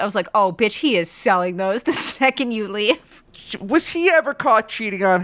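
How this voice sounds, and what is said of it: Usual voice. Nothing is said of it.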